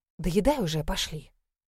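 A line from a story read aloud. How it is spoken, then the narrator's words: Gloomy hiss. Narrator (Russian): сидела мрачнее тучи, прошипела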